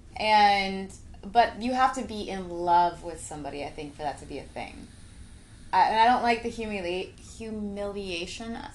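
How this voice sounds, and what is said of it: Italian accent breaking through. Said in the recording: “I've been drinking, so my Italian accent's trying to fucking fight through”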